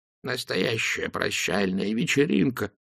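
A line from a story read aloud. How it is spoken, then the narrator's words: Continuous muttering. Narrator (Russian): не переставая бормотал он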